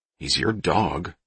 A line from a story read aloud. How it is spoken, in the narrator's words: Todd muttered